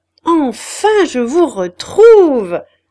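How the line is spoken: Shouted to be heard. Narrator (French): cria-t-il pour qu'on pût l'entendre

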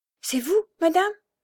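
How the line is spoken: Blind person's trembling voice. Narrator (French): fit l'aveugle d'une voix tremblante

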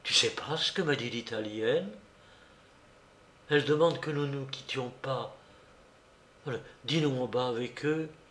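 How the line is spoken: Very quiet. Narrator (French): Maria Luce me dit tout bas

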